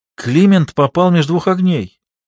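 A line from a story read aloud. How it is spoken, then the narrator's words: Exclamation. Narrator (Russian): воскликнула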